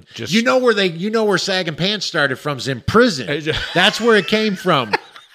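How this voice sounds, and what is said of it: Put-on Tennessee or Kentucky accent. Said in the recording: “this Tennessee accent or Kentucky? Every white guy sounds like this.”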